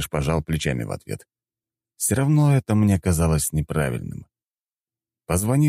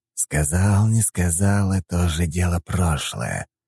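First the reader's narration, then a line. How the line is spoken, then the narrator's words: Hissed. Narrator (Russian): прошипел дядя Игнат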